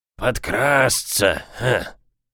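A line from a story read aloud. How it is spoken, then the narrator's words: Hoarse voice agreeing. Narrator (Russian): согласился хрипатый Боб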